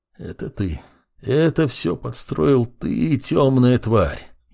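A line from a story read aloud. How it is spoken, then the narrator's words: Barely audible mutter. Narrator (Russian): едва слышно пробормотал Сит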